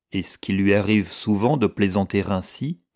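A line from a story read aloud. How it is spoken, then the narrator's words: Plain. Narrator (French): demanda le Cowger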